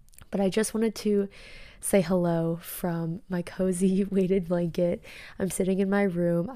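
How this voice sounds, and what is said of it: Tired, run-down voice. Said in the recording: “as you can hear from my voice, I still am a little bit run down. I am really tired.”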